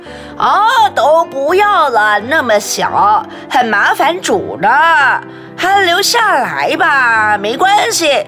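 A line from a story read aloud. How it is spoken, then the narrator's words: Loud reply. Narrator (Chinese): 妈妈也大声的回答说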